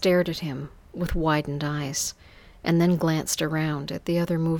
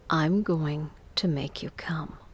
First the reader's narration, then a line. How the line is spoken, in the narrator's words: He whispered in my ear softly